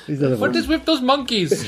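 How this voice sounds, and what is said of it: Impression of a woman shopkeeper. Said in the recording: “He's doing an impression of... He's doing an impression of a lady who worked in a shop, news agent”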